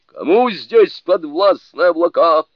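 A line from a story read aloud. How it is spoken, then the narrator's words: Shouted. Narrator (Russian): Суню-кун крикнул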